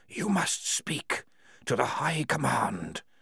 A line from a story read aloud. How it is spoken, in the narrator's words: whispered the walls